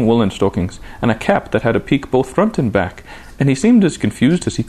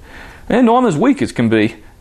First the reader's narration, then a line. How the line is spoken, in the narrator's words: he gasped